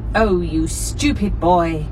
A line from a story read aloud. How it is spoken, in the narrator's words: bellowed the cook